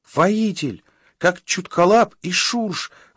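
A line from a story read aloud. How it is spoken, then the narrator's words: Excited squeak. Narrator (Russian): возбужденно пискнул Шустрик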